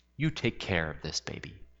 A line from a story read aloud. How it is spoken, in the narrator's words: He said in a firm and commanding voice